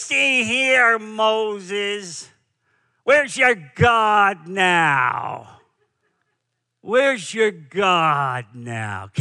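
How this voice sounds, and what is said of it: Edward G. Robinson Brooklyn accent. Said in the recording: “Edward G. Robinson, in his famous Jewish Brooklyn accent”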